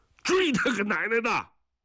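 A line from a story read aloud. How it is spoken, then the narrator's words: Roaring. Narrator (Chinese): 吼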